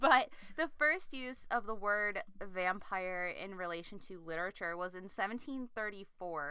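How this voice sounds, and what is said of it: Usual voice. Nothing is said of it.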